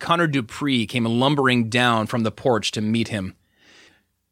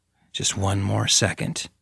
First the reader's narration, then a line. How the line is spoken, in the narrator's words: Judith breathed